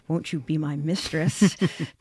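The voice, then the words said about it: Put-on accent, well done. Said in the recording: “Fantastic accent, by the way. I feel like you're whipping it out a couple of times. ... Impressive.”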